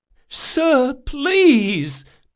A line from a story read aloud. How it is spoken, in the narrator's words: pleaded the captain